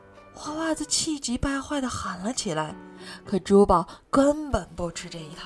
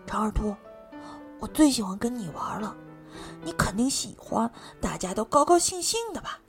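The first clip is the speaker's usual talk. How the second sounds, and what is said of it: Quiet muttering whisper. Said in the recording (Chinese): “小声嘀咕道”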